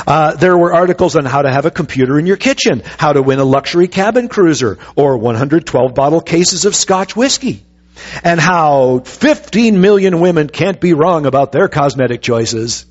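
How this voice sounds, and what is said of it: Commercial radio announcer voice. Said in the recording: “radio voice coming out a little bit there? I used to do commercials like this.”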